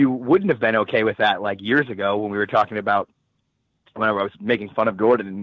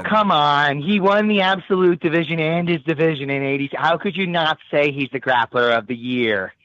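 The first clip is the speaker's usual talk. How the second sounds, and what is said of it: Imitates another person's voice. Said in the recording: “my impression of you”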